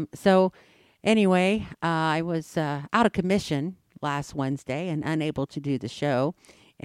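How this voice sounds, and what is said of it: Slightly hoarse voice. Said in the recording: “hear it in my voice that I'm still a little hoarse”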